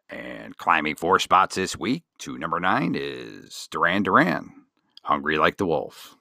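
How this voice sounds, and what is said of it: Casey Kasem impression. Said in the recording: “Your Casey Kasem impersonation is spot on.”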